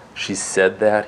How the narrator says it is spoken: asked softly

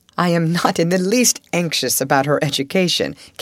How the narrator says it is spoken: Captain Crewe said with his gay laugh

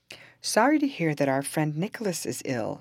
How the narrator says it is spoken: said the judge

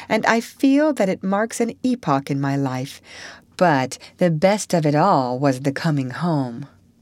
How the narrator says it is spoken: concluded happily

